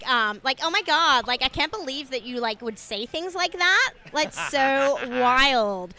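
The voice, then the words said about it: Dumb American teen girl voice. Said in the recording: “I can do, like, dumb American, like, teen girl. ... Dumb teen girl.”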